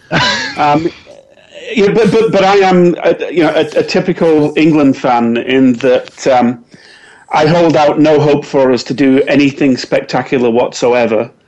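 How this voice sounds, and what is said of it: English accent. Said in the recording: “are you supporting England? ... come on, with the accent.”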